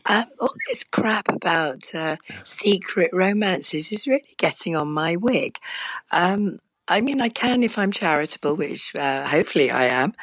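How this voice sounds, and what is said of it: Hoarse, strained voice. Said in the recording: “I've actually lost my voice”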